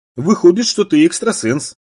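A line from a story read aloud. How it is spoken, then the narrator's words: Mocking mimicry. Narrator (Russian): передразнила она его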